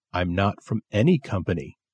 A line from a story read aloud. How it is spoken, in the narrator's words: the man said